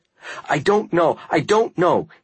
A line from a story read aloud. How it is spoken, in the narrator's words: his voice simultaneously panicked and robotic